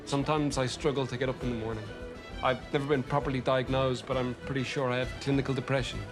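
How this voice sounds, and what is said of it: Lilting, melodic accent. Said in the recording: “Listen to that accent ... Everything you say sounds like good news on a sunny morning ... Lilting melody.”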